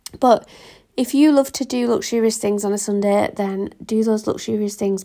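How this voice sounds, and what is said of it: Strained, failing voice. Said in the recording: “my voice is going a little bit there”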